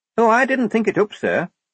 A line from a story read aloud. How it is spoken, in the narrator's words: said Shufti brightly